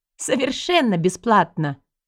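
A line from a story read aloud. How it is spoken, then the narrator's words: Eldest girl's chuckle. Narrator (Russian): хохотнула старшенькая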